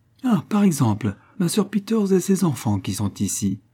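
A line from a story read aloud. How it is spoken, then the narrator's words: Exclaimed. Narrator (French): s'écria Mrs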